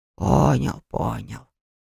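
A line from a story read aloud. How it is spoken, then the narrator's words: Grumbling spirit. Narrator (Russian): проворчал дух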